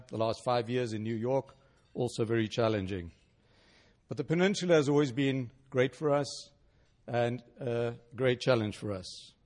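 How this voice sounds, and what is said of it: South African accent. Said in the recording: “as you can hear from my accent, which I don't think in my life I'm going to get rid of ... I was born and raised in South Africa”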